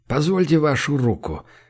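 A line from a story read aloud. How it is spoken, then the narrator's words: Quiet request, admiral. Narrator (Russian): негромко попросил адмирал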